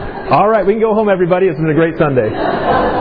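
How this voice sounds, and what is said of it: Usual voice. Nothing is said of it.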